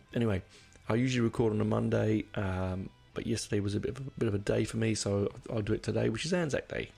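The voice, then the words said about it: Croaky, dry voice. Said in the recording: “so my voice is a bit croaky... I've been suffering from this stupid cold for a couple of weeks... I'm just a bit dry”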